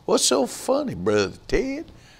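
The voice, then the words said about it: Imitated North Carolina accent. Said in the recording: “Clyde had that North Carolina accent.”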